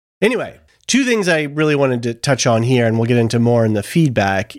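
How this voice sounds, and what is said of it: Voice sounds sick with a cold. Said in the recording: “You probably hear my voice. I've got a little bit of a cold... you'll probably hear it in my voice throughout the recording”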